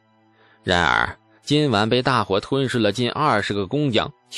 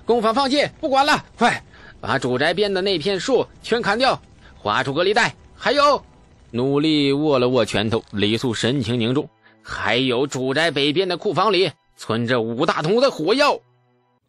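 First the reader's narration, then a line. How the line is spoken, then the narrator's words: Shaken, raised shout. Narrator (Chinese): 雷素更是心头大颤，扬声喊道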